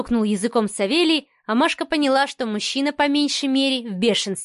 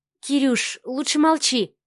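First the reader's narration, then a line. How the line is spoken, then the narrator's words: Mumbled. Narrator (Russian): пробормотала Марианна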